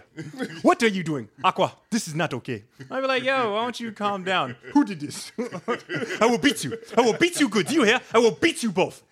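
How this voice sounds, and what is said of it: Put-on African accent, imitating parent. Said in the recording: “It's like every other African accent. There's really no difference ... every time I hear someone emulate their African parent”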